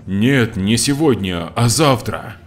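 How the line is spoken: Displeased mutter. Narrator (Russian): Костя недовольно пробормотал

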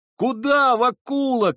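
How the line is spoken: Young men shouting. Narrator (Russian): кричали парубки

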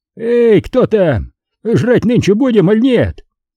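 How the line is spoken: Hoarse bass bellow. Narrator (Russian): заорал, не прокашлявшись, басом

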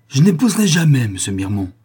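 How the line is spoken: Trembling exclamation. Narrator (French): s'écria Camille, les lèvres frémissantes

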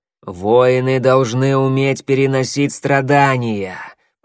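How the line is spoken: Growled. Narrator (Russian): прорычал коготь

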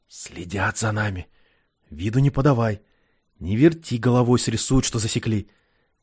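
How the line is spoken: Ingratiating whisper close to ear. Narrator (Russian): Киря вкрадчиво, чуть ли не в ухо забравшись, прошептал

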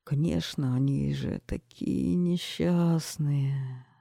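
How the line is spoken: Sighing king. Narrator (Russian): вздохнул король

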